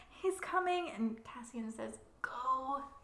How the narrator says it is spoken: he groans

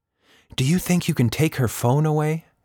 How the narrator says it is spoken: She whispered

